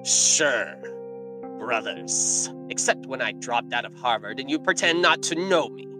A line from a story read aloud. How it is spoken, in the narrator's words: Balaam retorted bitterly